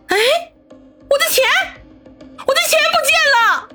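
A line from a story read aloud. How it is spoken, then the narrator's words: Scream. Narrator (Chinese): 这尖叫声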